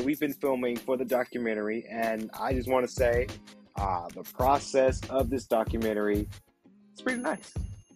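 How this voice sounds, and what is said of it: Sleepy, tired voice. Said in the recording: “I sound a little sleepy ... So I'm a little tired ... I'm a little tired”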